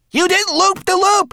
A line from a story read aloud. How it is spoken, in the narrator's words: wailed